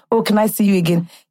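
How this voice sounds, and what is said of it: Deep put-on Nigerian accent. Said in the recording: “In my most deep Nigerian accent”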